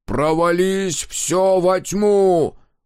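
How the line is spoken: Tearful roar. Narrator (Russian): проревел Дозер восходящему солнцу и, не обращая внимания на бегущие по щекам слезы

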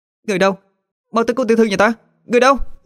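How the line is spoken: Shout. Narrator (Vietnamese): tiếng hét lên

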